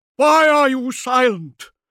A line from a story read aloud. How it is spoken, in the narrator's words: Gibran asked, his voice rasping with hysteria